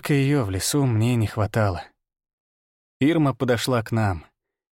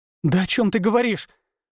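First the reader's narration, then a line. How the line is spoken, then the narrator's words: Exclaimed. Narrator (Russian): воскликнула она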